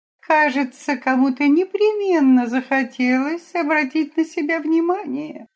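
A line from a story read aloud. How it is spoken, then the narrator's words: Sour-sweet female remark. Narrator (Russian): какая-то дама кисло-сладким голосом заметила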